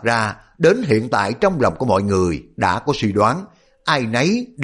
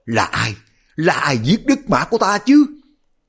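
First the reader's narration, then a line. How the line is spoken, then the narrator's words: Loud wailing sob. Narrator (Vietnamese): Đột nhiên Hoàng Đài Cát gào khóc lớn lên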